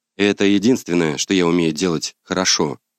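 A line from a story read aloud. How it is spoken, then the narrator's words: Calm reply. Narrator (Russian): спокойно отвечаю я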